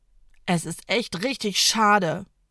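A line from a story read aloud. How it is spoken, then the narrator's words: Groaning. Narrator (German): stöhnt Ida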